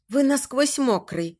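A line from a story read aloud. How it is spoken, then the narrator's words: Trembling voice. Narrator (Russian): констатирует дрожащим голосом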